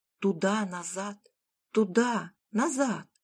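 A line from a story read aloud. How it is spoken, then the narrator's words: Hissing wife. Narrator (Russian): Зашипела жена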